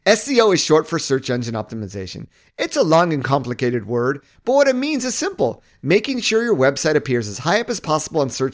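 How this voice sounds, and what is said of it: Childish tone of voice. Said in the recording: “I'm going to do a very, very distinct tone of voice. I'm going to do a childish tone of voice”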